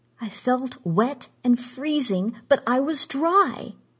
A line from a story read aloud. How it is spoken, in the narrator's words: she cried